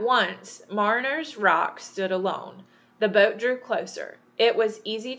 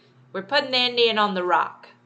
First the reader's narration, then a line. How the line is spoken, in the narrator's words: called out